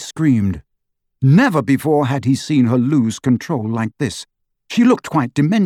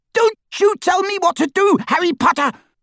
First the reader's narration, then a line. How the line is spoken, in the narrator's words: she screeched